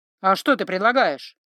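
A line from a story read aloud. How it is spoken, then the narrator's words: Snapping retort. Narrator (Russian): огрызнулся Златко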